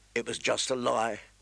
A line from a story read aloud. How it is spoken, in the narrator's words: he said bitterly